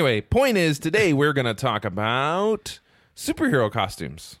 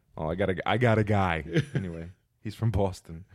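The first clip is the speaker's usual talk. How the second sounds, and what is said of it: Put-on New York / New Jersey accent. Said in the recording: “I don't even know what accent that was. ... That was a New York. ... Kind of New Jersey.”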